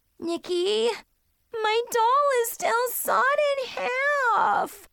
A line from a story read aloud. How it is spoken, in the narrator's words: she whined loudly